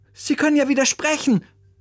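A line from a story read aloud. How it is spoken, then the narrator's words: Calling out. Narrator (German): rief Oliver seinem Musiklehrer zu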